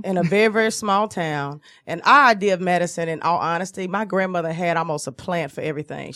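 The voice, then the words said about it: Southern US accent. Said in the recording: “I grew up in the South, obviously, hence my accent.”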